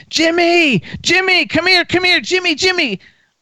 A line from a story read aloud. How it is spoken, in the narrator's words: I hear him screaming